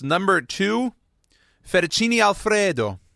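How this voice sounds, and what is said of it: Put-on Italian accent. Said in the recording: “That's my Italian accent. Let me know if that was decent, good, or excellent”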